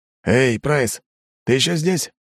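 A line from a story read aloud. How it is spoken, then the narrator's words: Hoarse voice over speakers. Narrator (Russian): прохрипели динамики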